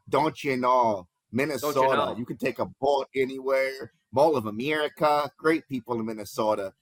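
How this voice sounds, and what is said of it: Poorly done put-on Minnesota accent. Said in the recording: “sorry for the bad accent.”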